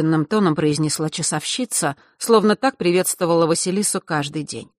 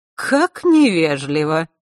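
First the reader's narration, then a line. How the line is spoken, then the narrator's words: Mocking, pursed lips. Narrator (Russian): насмешливо поджала губы Елена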